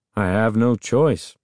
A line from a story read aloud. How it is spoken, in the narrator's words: Uncle Ben said dryly